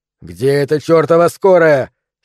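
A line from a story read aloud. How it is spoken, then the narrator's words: Angry shout. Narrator (Russian): сердито закричал Тим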